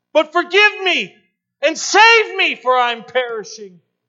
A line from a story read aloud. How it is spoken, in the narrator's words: cried Steinman